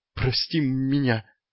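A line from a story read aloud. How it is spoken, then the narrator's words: Moaning. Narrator (Russian): простонал Эдуард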